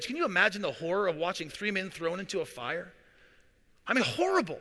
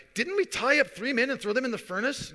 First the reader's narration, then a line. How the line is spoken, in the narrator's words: Suddenly Nebuchadnezzar jumped up in amazement and he exclaimed to his advisors